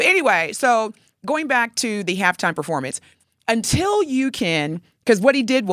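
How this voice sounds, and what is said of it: Usual voice. Nothing is said of it.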